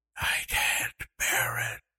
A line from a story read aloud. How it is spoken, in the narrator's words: she whispered